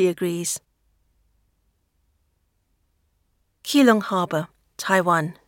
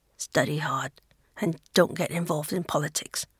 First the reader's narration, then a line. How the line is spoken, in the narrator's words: Longwei stumbles slightly, then embraces Renshu back, murmuring in his ear